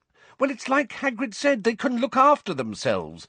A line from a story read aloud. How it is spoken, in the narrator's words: said Hermione impatiently